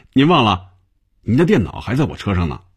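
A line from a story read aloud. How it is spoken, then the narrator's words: Smiling, friendly. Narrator (Chinese): 小丁笑着对红军说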